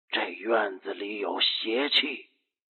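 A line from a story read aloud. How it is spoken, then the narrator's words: Low, mysterious. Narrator (Chinese): 赶尸人的眼里闪烁着神叨叨的光，他低声的说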